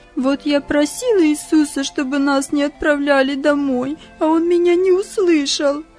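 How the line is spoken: Sobbing. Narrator (Russian): снова всхлипывание

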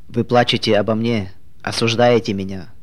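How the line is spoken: Plain. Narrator (Russian): спросил он

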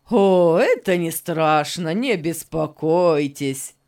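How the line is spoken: Laughing. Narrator (Russian): Засмеялся Беннет

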